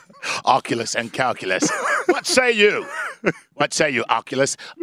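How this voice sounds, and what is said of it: Put-on British accent. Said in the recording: “I like that you're being ancient Roman with a British accent.”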